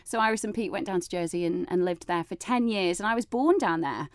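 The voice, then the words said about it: Northern British accent. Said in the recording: “I've got this sort of northern accent ... Glaswegian”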